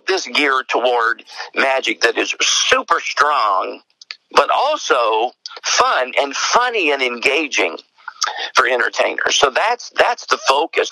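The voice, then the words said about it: East Tennessee Southern accent. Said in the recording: “the accent, a lot of people think I'm from Australia ... Is that Australia or English? ... no, it's East Tennessee”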